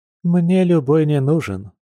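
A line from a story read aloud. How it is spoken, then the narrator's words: Sighing fox. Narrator (Russian): вздохнула лиса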